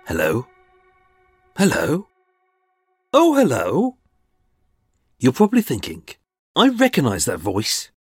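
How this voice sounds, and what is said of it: Brummie accent with a twang. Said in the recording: “I detect the dulcet twang of a secret Brummy”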